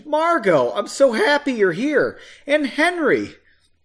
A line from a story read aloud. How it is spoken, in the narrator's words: He exclaimed